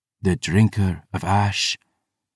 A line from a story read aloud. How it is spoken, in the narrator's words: the woman breathed